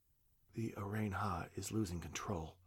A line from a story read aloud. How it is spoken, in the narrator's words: whispered